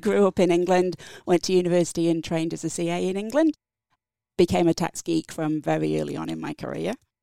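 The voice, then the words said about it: English accent. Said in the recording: “from my accent, English”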